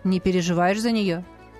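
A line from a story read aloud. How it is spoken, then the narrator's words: Snort. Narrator (Russian): Я хмыкнул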